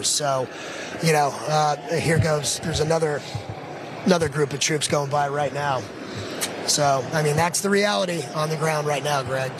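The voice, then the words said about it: Hoarse, strained voice. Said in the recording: “I'm losing my voice, as you can tell”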